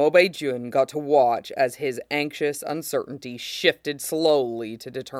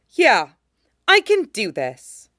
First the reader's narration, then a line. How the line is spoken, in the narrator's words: Ching Hua repeated more firmly